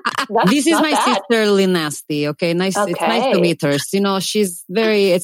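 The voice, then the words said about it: Put-on Russian accent. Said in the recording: “So I can do a Russian accent. ... does accents on the fly.”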